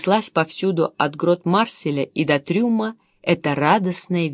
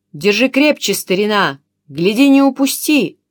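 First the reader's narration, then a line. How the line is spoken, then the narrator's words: Shouting. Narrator (Russian): кричал Камберус седовласому матросу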